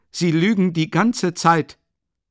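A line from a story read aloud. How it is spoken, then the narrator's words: Exclaimed. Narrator (German): rief er aus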